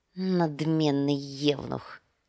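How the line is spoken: Muttered. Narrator (Russian): пробормотал Визирис

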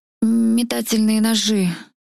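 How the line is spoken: Slightly hoarse tiger voice. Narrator (Russian): Пояснил все еще немного хриплым голосом тигра

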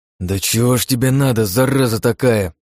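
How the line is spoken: Grumbling through teeth. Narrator (Russian): проворчал я сквозь зубы

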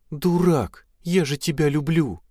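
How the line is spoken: Sobbing. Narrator (Russian): Эльза снова разрыдалась

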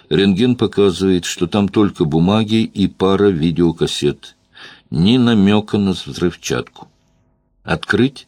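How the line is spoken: Bored voice. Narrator (Russian): скучным голосом объявил

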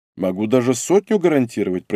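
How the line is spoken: Thoughtful. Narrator (Russian): произнес задумчиво

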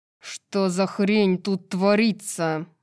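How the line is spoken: Growled. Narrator (Russian): зарычал Флинн

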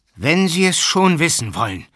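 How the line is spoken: Loud, growing annoyed. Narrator (German): sprach Matwej laut weiter, denn er begann sich jetzt zu ärgern

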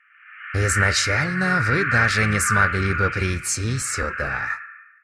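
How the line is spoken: Muttering. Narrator (Russian): пробормотал он

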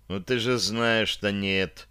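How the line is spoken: Through gritted teeth. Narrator (Russian): процедил я

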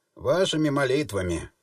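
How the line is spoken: Grumbled. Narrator (Russian): буркнул

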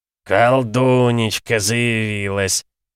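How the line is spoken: Happy deep bass. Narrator (Russian): счастливо пробасил Радко, сын трактирщика

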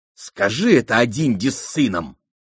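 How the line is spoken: Snapping back. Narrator (Russian): огрызнулась Аламанда

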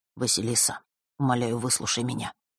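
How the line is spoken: Quiet. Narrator (Russian): тихо произнес друг

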